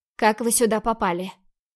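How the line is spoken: Steely voice, hiding fear. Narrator (Russian): Уточнила стальным голосом, пытаясь сделать вид, что мне совсем не страшно

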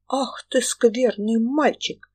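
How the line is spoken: Startled cry. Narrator (Russian): вскрикнула тетка

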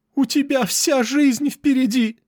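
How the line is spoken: Girl shouting. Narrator (Russian): закричала еще одна девушка

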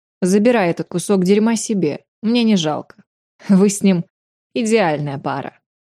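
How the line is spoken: Scoffing. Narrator (Russian): хмыкнула я

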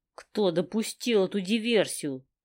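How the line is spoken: Hissing through teeth. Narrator (Russian): сквозь зубы цыжу я

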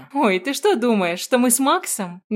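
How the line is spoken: Trailing off into laughter. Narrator (Russian): Не договаривает она и начинает смеяться

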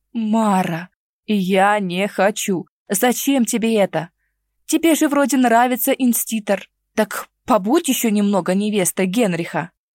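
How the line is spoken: Pleading moan. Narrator (Russian): Брат умоляюще простонал

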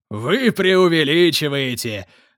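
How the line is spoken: Laughing remark. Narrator (Russian): смеясь заметил лорд Регнал

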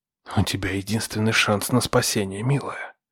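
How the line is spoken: Whisper in ear. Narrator (Russian): прошептал я на ухо своей жертве

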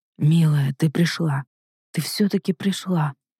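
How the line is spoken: Soft, tender. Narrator (Russian): произнес он негромко

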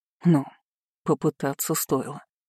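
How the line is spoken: Wry grunt. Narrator (Russian): хмыкнул князь

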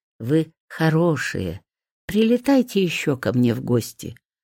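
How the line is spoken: Gentle, smiling. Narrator (Russian): ласково говорила фея и улыбалась

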